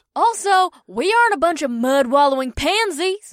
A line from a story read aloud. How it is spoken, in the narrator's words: Rikuri scoffed